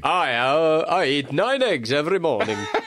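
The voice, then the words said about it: Attempted Welsh accent, circus strongman. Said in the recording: “I was trying to do Welsh, but it did sound very much like I am strong man from circus”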